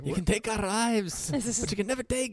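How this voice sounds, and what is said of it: Bad put-on Scottish accent. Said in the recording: “That's a terrible Scottish accent. ... It was awful. ... it was a better Mel Gibson doing a Scottish accent than it was a Scottish accent.”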